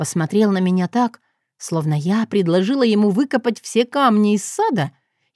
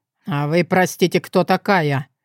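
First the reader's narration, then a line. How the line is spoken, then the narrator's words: Icy question. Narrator (Russian): спросил он ледяным тоном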